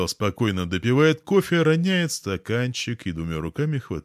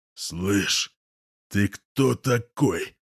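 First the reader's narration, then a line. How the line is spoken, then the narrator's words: Hoarse growl. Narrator (Russian): хрипло рычит он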